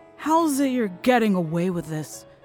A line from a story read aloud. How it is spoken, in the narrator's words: I slurred